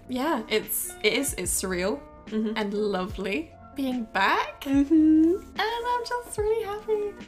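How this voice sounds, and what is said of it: Happy, smiling voice. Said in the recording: “You should see the smile on her face right now ... You can probably hear it in my voice”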